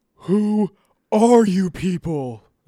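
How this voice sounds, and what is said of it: Cartoon character voice. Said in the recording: “That was supposed to be Patrick.”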